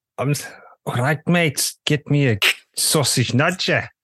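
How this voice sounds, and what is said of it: Attempted Scouse accent. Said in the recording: “can you give me your best scouse accent ... Does that sound Welsh? ... I'm not even sure what that was.”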